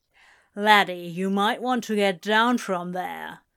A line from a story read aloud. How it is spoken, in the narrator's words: Shadwell growled